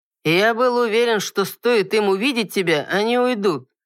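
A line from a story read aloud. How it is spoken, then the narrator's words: Indifferent, offhand. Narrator (Russian): равнодушно бросил лорд Иннес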